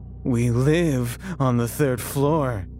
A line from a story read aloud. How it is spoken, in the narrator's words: he said mockingly